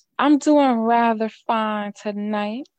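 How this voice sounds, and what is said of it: Put-on country accent. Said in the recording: “I like your your little country accent.”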